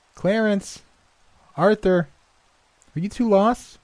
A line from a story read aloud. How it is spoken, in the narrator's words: she regularly called out